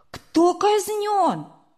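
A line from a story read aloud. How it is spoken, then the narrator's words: Sudden exclamation. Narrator (Russian): вдруг Сережа воскликнул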